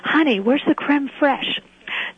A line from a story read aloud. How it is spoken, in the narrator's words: a male voice in the background whisper